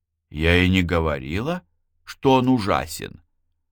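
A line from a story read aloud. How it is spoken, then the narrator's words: Plain. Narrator (Russian): ответила Руби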